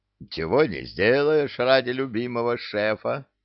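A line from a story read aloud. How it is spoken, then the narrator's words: Sighing troll. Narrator (Russian): вздохнул тролль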